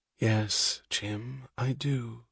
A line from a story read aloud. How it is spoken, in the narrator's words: she said, her voice low